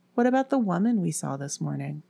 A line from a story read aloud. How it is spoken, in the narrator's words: Nola asked hesitantly